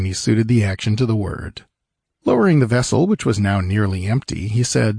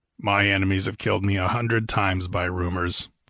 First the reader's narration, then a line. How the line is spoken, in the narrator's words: grunted Conan